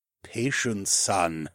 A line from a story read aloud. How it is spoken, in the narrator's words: the Ramlord chuckled